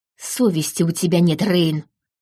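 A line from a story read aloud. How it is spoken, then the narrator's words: Hiss. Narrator (Russian): прошипел он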